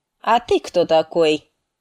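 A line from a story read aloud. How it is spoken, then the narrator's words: Commanding question. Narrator (Russian): спросил он командным тоном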